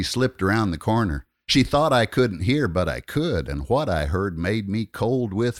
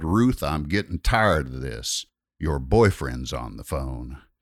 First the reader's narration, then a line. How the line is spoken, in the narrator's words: He growled